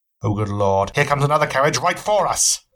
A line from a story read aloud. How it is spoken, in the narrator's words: Holmes shouted